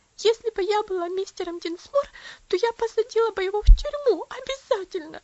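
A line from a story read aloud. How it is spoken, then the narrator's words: Sobbing. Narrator (Russian): всхлипывала она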